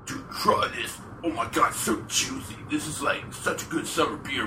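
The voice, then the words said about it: Impression of speaker's boss. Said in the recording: “good impression of his boss?”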